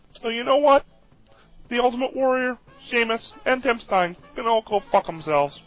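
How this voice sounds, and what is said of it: Kermit the Frog puppet voice. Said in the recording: “This is Kermit the Frog, best impression of 2010”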